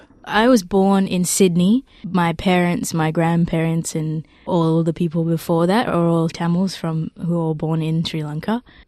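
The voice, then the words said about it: Australian accent. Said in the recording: “as you can probably tell from my accent, I'm very Australian.”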